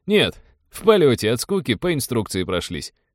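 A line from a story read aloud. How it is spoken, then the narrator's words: Chuckling. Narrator (Russian): хохотнул казак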